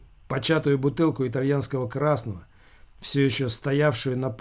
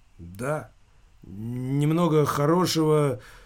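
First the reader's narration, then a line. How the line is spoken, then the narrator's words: Embarrassed mumble. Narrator (Russian): смутившись, промямлил Замелькацкий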